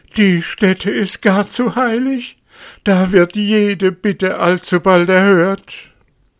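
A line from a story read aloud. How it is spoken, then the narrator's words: Wolf shouting. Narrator (German): schrie der Wolf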